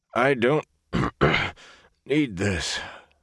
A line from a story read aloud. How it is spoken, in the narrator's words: the gleeman wheezed